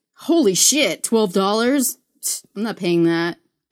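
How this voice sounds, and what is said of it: Imitates another person's voice. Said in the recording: “bad impression”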